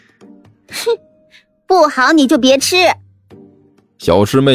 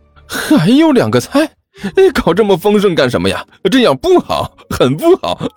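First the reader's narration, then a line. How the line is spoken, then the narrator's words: Cheerful, giggling girl. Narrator (Chinese): 小师妹笑嘻嘻的说道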